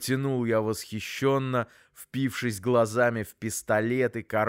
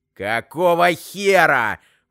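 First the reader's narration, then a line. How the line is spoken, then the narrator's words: Roaring. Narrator (Russian): взревел Громов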